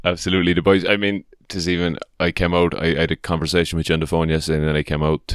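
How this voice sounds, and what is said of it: Irish accent. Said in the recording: “My Irish accent is coming back.”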